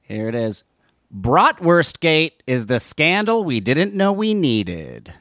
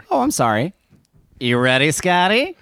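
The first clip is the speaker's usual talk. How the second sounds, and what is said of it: Announcer-style radio voice. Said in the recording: “You didn't sound too ready there... There's the radio voice.”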